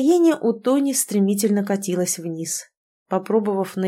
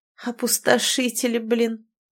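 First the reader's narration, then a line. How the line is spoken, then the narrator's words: Grim smirk. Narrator (Russian): мрачно усмехнулась подруга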